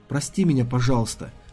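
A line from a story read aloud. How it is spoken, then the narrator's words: Whispering. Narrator (Russian): шепнула Ириси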